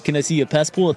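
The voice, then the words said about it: Put-on Peruvian accent. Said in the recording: “Peruvian accent ... John Travolta meets Bernie Sanders”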